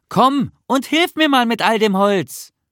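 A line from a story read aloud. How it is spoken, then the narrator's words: Calling out. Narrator (German): rief Nisse zu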